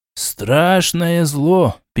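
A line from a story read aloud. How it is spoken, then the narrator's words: Sad. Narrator (Russian): печально покачал головой Шичерун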